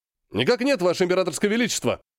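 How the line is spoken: Deafening bark. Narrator (Russian): Гаркнул так, что император поморщился

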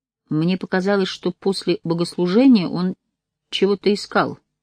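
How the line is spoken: Quiet speech. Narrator (Russian): тихо сказал Давид

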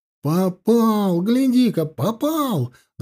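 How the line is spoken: Delighted yell. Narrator (Russian): заорал в восторге Савелий

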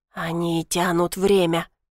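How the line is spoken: Hissed. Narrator (Russian): прошипел он

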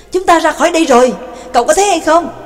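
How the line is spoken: Excited shout. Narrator (Vietnamese): hưng phấn hét lên với Nhạc Dương

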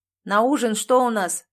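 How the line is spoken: Shouted from afar. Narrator (Russian): крикнул оттуда

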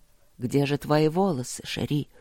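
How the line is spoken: Soft question. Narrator (Russian): спросил Нори мягко

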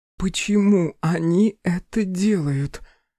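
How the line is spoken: Tearful question. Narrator (Russian): сквозь слезы спросила Беатрис

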